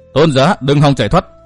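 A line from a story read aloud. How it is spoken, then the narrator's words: Cold. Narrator (Vietnamese): Hắn lại lạnh lùng nói tiếp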